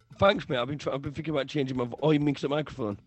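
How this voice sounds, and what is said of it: Husky, hoarse voice. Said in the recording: “you sound so sexy ... since I've been shouting, imagine come back a bit huskier”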